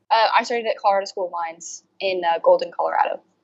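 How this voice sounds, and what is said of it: American accent, not British. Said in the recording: “as we can notice by your accent, you're maybe not from the UK”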